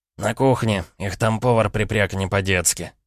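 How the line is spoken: Snort. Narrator (Russian): хмыкнул Евгений

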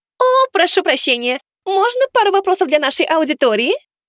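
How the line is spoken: Shrill voice. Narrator (Russian): знакомый визгливый голос

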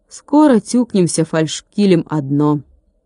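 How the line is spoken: Even-voiced young woman. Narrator (Russian): ровным голосом сказала девушка

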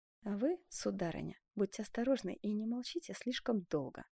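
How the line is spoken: Quiet. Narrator (Russian): тихо обратился Бенвенуто к герцогине

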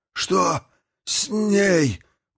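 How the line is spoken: Hoarse rasp. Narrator (Russian): прохрипел Горджелин

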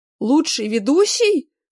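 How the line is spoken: Shouting. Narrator (Russian): кричал в своем кабинете Стас

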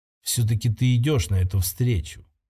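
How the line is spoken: Quiet. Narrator (Russian): тихо произнесла Сейрион

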